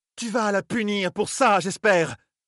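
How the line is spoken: Furious exclamation. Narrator (French): s'écria-t-elle, des yeux furibards

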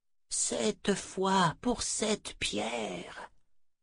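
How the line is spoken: Breathed softly. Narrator (French): souffla Althea

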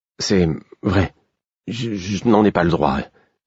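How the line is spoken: Stammering. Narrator (French): dis-je en bégayant

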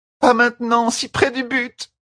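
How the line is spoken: Shouted. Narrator (French): cria

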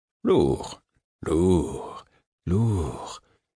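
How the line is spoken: Soothing. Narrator (French): dit-il d'un ton apaisant

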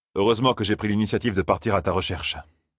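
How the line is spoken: Plain. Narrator (French): dit Lan

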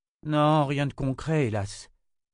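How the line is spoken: Sigh. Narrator (French): soupira Quinn

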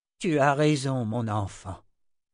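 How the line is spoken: Plain. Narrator (French): dit Zed

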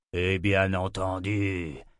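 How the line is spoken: Grunted. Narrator (French): grogna Nathan

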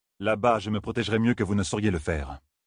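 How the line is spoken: Icy tone. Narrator (French): dit Rand d'un ton glacial

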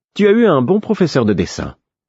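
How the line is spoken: Sudden, overly cheerful. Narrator (French): dit-elle tout à coup, d'un ton trop enjoué

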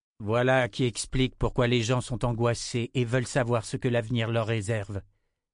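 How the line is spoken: Plain. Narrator (French): dit le sourcier

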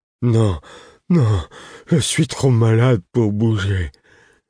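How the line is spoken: Moaning, whining. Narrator (French): répétait-il d'un ton gémissant

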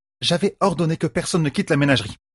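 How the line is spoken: Curt reminder. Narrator (French): rappela-t-elle sèchement

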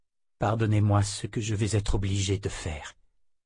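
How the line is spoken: Murmured. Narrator (French): murmura-t-il

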